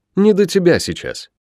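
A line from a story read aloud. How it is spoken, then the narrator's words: Loud irritated snort. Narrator (Russian): Приятель громко фыркнул, показывая этим всю степень своего раздражения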